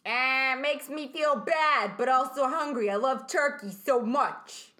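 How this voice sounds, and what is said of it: Put-on male guy voice. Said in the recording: “we're doing guy voices? ... I'm going to do a guy voice. ... That's the voice I chose.”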